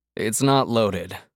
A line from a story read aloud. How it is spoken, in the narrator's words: Hart said blandly